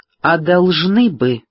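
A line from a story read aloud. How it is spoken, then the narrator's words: Stern. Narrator (Russian): строго произнесла Натали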